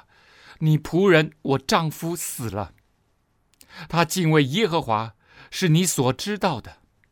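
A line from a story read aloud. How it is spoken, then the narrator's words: Pleading woman. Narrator (Chinese): 他的门徒的妻子 哀求以利沙 说了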